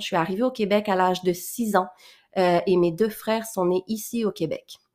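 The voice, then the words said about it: Mixed French and Québécois accent. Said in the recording (French): “cette petite tranche d'accent français ... ça paraît, mon accent ... les gens me disent que j'ai l'accent québécois. Donc, je dois avoir un mix entre les deux”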